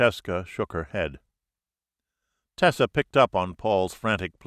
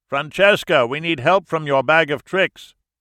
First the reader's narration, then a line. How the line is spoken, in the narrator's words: shouted over the roar